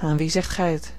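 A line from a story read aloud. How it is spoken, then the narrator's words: Sighing reply. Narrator (Dutch): hernam ze met een zucht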